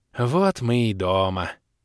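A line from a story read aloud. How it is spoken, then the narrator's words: Old water spirit's relieved sigh. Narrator (Russian): Успокоенно вздохнул старый водяной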